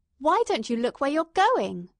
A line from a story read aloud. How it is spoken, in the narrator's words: she snapped out